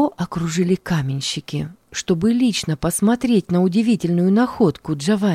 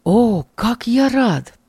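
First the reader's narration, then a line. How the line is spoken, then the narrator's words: Grateful exclamation. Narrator (Russian): воскликнул он, с чувством глубокой благодарности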